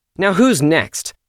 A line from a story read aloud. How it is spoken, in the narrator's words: she called out